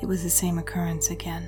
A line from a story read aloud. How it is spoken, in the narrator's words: she said quietly, close to his ear